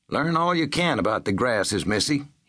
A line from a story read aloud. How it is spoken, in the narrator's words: advised